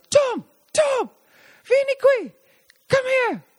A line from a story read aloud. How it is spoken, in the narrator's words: yells of